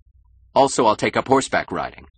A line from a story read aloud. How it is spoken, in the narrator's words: added angrily